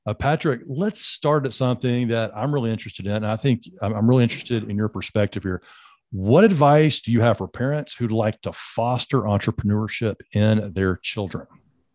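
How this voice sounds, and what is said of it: Southern American accent. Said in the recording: “has a Southern accent like mine ... two guys with Southern roots”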